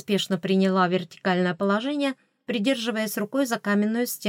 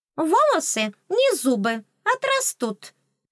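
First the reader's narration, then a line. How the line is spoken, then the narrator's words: Philosophical pronouncement. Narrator (Russian): философски изрекла оскалка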